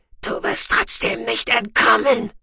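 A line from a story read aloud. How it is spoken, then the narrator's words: Hissing. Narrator (German): fauchte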